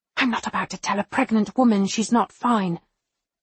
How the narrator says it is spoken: she hisses

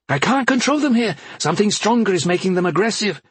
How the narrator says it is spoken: she then yelped in pain

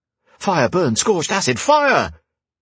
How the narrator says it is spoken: With a gasp

